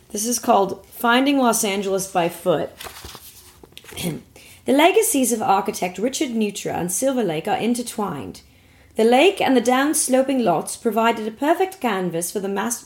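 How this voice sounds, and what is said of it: Attempted neutral British accent. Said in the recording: “I'll just try to do a neutral British accent ... you're tripping up on the O's”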